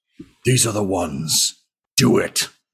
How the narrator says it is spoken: he just growls

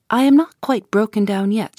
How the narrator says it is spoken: she said

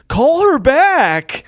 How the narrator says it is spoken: this lady in the audience yells

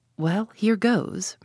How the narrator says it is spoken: murmured Tommy to himself

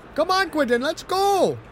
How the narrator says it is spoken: Yasud shouted at him from behind

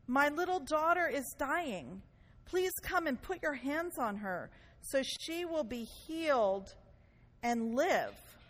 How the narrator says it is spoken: pleaded earnestly, See, there's pleaded earnestly with him

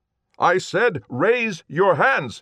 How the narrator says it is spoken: Shan shouted

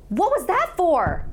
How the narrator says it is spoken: I yelled at him

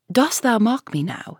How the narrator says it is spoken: said the minister

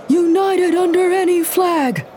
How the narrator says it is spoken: Among the panicked screams, there was chanting

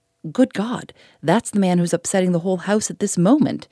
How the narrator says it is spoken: exclaimed the landlord

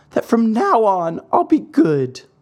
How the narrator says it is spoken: answered the marionette, sobbing

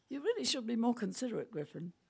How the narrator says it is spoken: She said in a conversational voice

